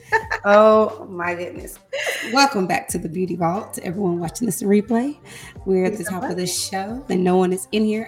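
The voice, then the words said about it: Hoarse, nearly lost voice. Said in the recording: “my voice is gone once again ... this week I have no voice.”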